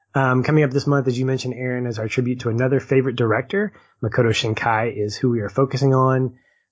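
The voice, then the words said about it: Tired, worn-out voice. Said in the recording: “My voice is tired”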